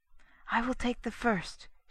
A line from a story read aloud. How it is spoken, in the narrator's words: she whispered